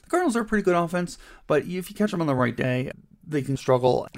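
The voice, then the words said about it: Scratchy, hoarse voice. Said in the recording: “my scratchy voice here today. I think I'm losing my voice.”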